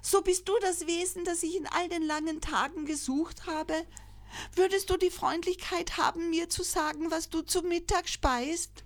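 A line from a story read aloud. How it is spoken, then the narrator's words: Joyful call. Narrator (German): rief freudig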